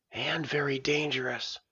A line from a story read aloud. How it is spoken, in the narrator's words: Ops whispered